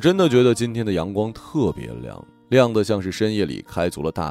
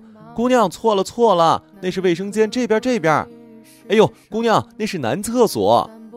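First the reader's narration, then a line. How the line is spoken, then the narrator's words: Worried shouting. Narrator (Chinese): 服务员再次担忧的大叫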